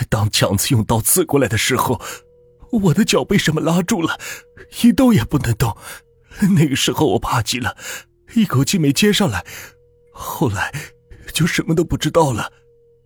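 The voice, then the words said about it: Trembling, shaky voice. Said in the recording (Chinese): “几乎用颤抖的声音说”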